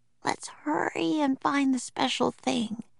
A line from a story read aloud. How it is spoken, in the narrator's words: whispered Annie